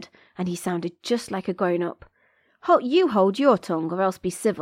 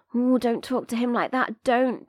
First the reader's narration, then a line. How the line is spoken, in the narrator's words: begged the woman anxiously